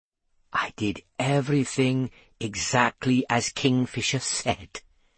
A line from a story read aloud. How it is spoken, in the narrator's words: he whispered